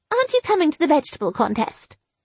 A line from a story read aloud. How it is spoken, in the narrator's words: I said brightly